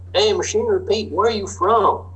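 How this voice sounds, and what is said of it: Put-on southern drawl. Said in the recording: “my southern drawl and impersonation ... the good old boy farmers”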